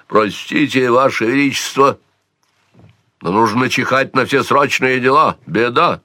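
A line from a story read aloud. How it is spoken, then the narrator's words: Barked, stern old man. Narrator (Russian): Суровый старик рявкнул, немало не оттаяв лицом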